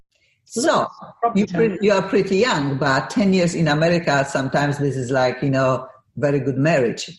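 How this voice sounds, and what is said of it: Polish accent. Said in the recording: “I have an accent. I am from Poland originally.”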